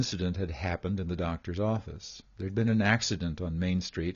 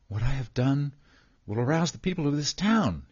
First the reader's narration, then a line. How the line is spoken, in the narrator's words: he declared excitedly